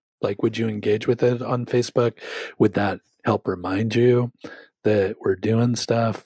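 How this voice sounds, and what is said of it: Hoarse, failing voice. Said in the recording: “My voice is going for some reason”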